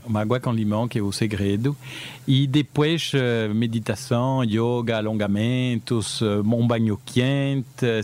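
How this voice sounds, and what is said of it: Unusual Brazilian Portuguese accent. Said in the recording (Portuguese): “Esse teu sotaque, não diria que é assim nem de Recife, nem do Rio de Janeiro.”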